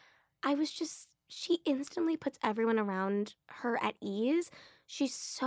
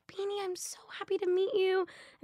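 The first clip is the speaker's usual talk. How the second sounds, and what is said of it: Imitated adorable Irish accent. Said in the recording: “in her adorable Irish accent”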